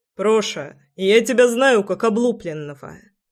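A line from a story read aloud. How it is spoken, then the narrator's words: Short chuckle. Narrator (Russian): хохотнул Роман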